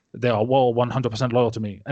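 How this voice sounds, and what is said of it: Bad put-on Cuban accent. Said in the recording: “Terrible Cuban accent”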